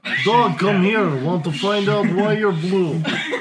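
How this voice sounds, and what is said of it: Put-on Russian accent. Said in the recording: “the best Russian accent I've ever heard ... Don't do a Russian voices on command.”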